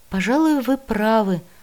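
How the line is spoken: Bewildered agreement. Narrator (Russian): растерянно согласился Танше

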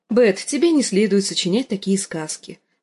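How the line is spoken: Gentle correction. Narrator (Russian): поправила Санса-младшую, ласково погладив ее по голове, чтобы лишить резкости собственные слова

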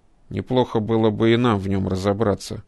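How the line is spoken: Grumbling scientist. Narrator (Russian): проворчал кибернетик

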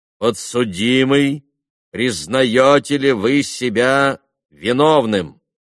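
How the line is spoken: Loud, imposing question. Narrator (Russian): председатель громко и внушительно спросил Митю

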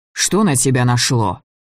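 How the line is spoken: Angry question. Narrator (Russian): спросил Влас все так же зло

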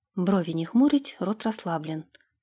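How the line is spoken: Mutter. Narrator (Russian): пробормотала

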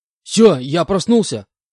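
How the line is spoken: Shouted out. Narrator (Russian): выкрикнул я

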